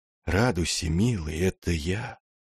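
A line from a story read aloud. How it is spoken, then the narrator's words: Gentle whisper. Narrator (Russian): воцарившаяся тишина ласково шепнула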